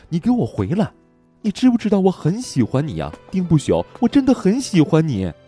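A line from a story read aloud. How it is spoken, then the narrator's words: Shouting woman. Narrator (Chinese): 徐青霜喊道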